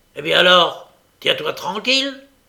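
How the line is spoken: Growling, as to dog. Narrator (French): ajouta Sikes en grondant comme il avait l'habitude de le faire quand il s'adressait à son chien

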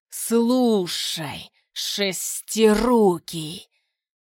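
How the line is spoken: Hiss. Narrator (Russian): прошипел

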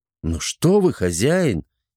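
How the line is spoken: Sincere exclamation. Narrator (Russian): искренне воскликнул Шургар

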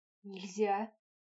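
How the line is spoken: Wheeze. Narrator (Russian): прохрипел Норк

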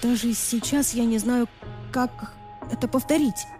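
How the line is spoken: Stammering. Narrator (Russian): запиналась я

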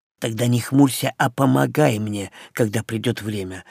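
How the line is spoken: Whisper. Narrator (Russian): шепнул я

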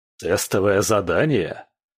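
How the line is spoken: Bursting into laughter. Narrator (Russian): Магнус расхохотался

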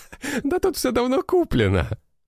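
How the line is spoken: Laughing. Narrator (Russian): смеялся он

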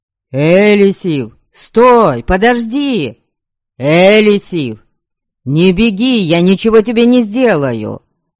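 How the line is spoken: Shouting from behind. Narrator (Russian): кричал позади Харальд

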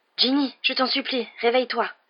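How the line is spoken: Desperate murmur. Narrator (French): murmura Harry d'une voix désespérée

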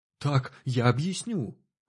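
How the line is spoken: Relieved exhale. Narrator (Russian): облегченно выдохнул абориген

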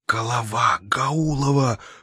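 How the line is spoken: Wheezed. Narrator (Russian): прохрипел Рультабий

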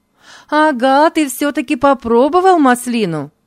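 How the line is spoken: Exclamation. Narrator (Russian): воскликнула она

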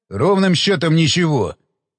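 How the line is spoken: Barked. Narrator (Russian): рявкнул Уилсон

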